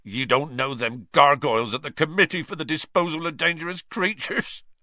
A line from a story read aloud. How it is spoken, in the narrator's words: choked Hagrid, wiping his eyes on his sleeve